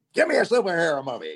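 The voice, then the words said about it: Imitates another person's voice. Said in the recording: “your impersonation of me”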